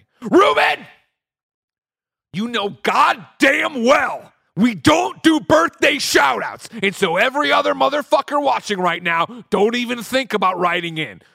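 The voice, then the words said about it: Angry shouting character voice. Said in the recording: “do his angry Greg voice?”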